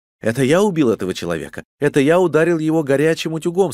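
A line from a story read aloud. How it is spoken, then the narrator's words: Plain. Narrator (Russian): сказал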